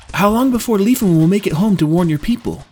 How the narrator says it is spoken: asked, his voice laced with urgency

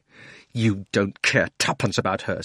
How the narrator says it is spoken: said Digory savagely

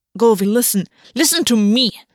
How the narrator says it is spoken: Gulvi snapped

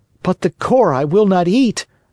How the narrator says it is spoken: cried Pinocchio in an angry tone

